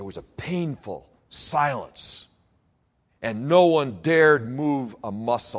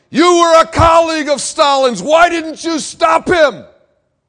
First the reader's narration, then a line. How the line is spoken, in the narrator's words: a heckler shouted